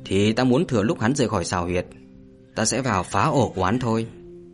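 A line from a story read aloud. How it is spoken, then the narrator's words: Cold. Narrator (Vietnamese): Hạ Vũ lạnh lùng nói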